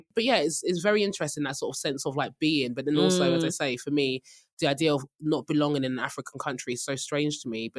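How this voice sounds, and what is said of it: British accent. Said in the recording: “I was born and raised in the UK. My accent stands out and you can just smell the freaking British passport on me”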